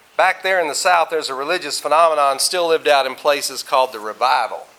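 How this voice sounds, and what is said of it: Southern US accent. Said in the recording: “you may be able to tell by my accent that I'm not from around here. I came here from Austin, Texas, and before that grew up in Arkansas, so I talk funny”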